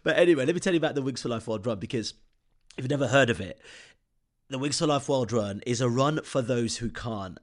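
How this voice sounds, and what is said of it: Deep, slightly nasal voice. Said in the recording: “I'm just coming off a bit of an illness at this moment in time. So maybe my voice is a little baritone, or a bit nasal.”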